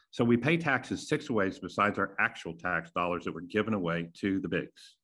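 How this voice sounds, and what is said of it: Southern American accent. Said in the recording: “mostly in the South where I live, because you can tell by my accent”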